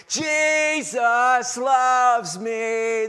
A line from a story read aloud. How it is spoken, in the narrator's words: singing at the top of her lungs